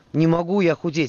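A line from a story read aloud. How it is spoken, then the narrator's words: Wheezing. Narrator (Russian): хрипел Мирон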